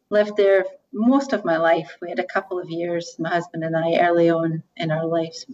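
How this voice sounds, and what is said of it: Scottish accent. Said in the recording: “you have an accent. ... originally from Scotland.”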